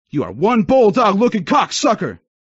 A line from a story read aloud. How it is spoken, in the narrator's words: he yelled inches away from my mouth